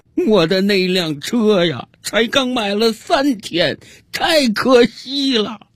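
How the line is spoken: Drunk, hysterical sobbing shout. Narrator (Chinese): 这个喝了一整瓶白兰地的家伙又开始歇斯底里的大哭起来，一边哭他一边嚷嚷

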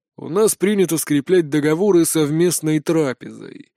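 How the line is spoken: Grumbled. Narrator (Russian): проворчал Гонтон

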